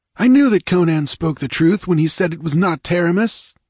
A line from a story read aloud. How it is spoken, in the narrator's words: the speaker exclaimed